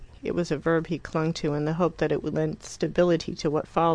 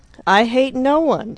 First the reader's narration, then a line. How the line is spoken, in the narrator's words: he exclaimed with extraordinary vehemence, and the Dell re-echoed